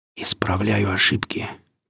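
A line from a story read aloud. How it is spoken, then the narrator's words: Quiet whispered reply. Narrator (Russian): так же тихо прошептал я в ответ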